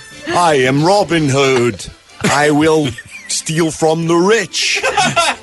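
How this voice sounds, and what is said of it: Kevin Costner's British accent as Robin Hood. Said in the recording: “you want to hear a British accent? Rent Robin Hood, Prince of Thieves. It's like taking a class.”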